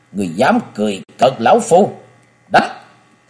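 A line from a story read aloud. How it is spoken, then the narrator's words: Thunderous angry roar. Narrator (Vietnamese): Lão không chịu nổi câu châm chọc này của La Sát Bà Bà nên tiếng quát như sấm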